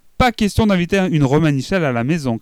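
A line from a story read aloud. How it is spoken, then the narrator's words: Shouted. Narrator (French): crie-t-elle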